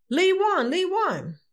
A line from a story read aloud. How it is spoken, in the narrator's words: our sergeant bellowed out